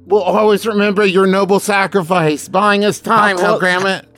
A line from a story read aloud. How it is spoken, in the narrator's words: Rictus shouts down